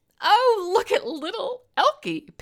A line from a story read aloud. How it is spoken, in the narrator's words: Penny giggled